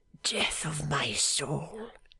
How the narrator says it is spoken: he whispered

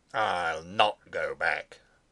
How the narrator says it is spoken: he said sullenly, almost fiercely

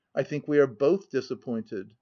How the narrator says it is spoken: she uttered a short laugh, observing

